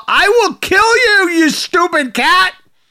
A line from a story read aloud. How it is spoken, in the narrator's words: she then proceeded to shout